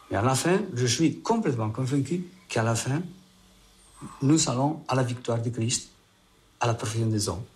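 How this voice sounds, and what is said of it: Spanish-accented French. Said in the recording (French): “avec tout son accent espagnol”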